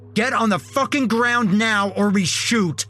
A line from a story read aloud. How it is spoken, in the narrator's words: the other one yelled